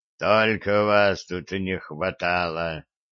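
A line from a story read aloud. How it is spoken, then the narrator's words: Muttering. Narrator (Russian): пробормотал Гордон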